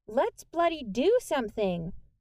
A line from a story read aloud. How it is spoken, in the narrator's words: a girl who was obviously not British shouted